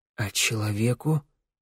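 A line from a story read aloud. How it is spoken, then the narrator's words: Whispered. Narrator (Russian): прошептал Вик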